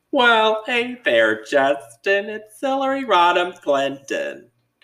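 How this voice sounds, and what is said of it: Imitates another person's voice. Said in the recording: “my Hillary Clinton impression ... you're just impersonating that lady ... Kate McKinnon on SNL ... You're like impersonating her impersonating Hillary. You don't look like Hillary.”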